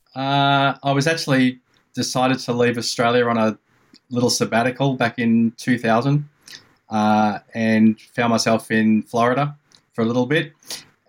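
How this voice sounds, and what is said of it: Australian accent. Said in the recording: “that accent isn't Greensboro, North Carolina, is it? ... It's Melbourne, Australia.”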